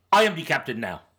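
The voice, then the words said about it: Imitates a Somali-accented voice. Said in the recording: “my Somali impersonation”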